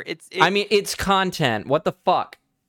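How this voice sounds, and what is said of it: Yelling, loud angry delivery. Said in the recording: “Don't yell at me. ... I'm yelling in general”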